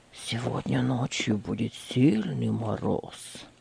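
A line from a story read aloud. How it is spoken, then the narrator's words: Low voice. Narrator (Russian): произнес он вполголоса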